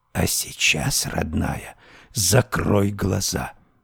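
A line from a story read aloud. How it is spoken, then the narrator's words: Sinister hissing whisper. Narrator (Russian): прошипела она дурным шепотом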